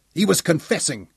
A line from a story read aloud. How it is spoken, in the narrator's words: Daniel told him angrily